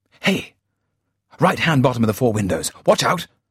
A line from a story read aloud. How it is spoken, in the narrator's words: urgently